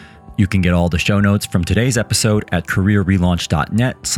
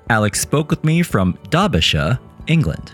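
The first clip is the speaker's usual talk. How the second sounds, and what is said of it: Attempted British accent. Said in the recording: “for all the Brits out there, I am very sorry. That is my best attempt at a British accent.”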